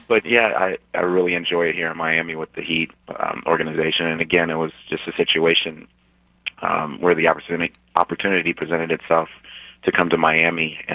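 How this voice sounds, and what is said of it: Slightly hoarse voice. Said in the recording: “I have to apologize for my voice. I'm a little hoarse because of our game last night.”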